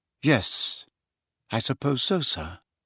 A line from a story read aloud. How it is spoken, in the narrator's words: he said finally in an expressionless voice